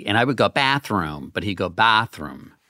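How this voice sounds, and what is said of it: Massachusetts middle A vowel. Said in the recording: “That's pretty good. You have a pretty good middle A.”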